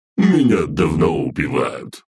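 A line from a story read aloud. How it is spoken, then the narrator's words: Monster's scoffing grunt. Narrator (Russian): хмыкнул монстр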